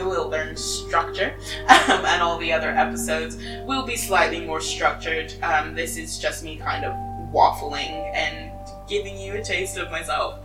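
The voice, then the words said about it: English accent mixed with American. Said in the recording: “I am English, but I spent 7 years of my childhood in America, so my accent goes in and out of both accents.”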